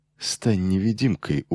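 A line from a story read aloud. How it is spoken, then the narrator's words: Smirking mutter from mouth corner. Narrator (Russian): ухмыльнувшись, пробормотал ему Чодак уголком рта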